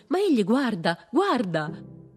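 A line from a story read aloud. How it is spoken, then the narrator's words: Woman exclaiming. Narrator (Italian): Una donna esclamò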